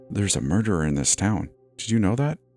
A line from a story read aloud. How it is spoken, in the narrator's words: whispered in my ear